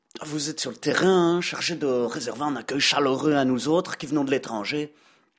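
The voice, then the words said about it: French with Belgian accent. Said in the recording (French): “comme vous pouvez l'entendre à mon accent, je ne viens pas de très loin, puisqu'il m'a suffi de traverser les Ardennes”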